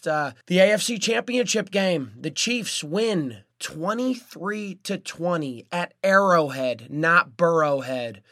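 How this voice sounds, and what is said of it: Hoarse, unclear voice. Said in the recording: “I lost my voice, so I'm not sounding too clear this week”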